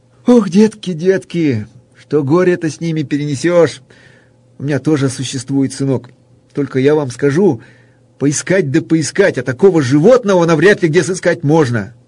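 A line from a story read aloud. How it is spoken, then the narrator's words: Laughing, then sighing sadly. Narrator (Russian): Гость тоже залился смехом, но потом крепко вздохнул и, грустно покачивая головою, произнес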